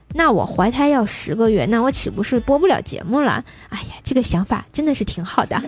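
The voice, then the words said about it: Tianjin accent. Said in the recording (Chinese): “单纯快乐的笑声和天津口音，真的真哏儿...咱天津人嘛”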